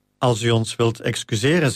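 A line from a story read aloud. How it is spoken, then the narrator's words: Plain. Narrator (Dutch): zei hij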